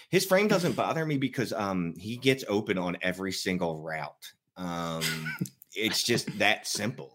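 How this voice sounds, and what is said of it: Philadelphia accent. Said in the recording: “this awful accent, I am from Philadelphia”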